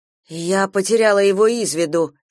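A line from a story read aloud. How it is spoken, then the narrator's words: Plain. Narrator (Russian): сказала Камилла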